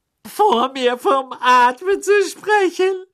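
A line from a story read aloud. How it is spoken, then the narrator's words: Shrill, echoing voice. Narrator (German): sagte schrill, und ihre Stimme hallte laut im Badezimmer wieder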